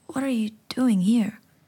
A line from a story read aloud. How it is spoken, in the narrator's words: I asked, my voice wavering